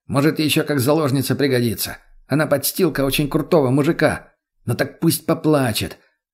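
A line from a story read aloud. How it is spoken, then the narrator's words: Angry, menacing. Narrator (Russian): зло бросил Ромка, и Мария стала не по себе от его голоса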